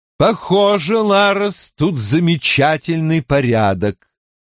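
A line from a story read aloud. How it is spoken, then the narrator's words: Loud, for whole room. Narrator (Russian): Громко, чтобы слышала вся кухня, произнесла Амерлин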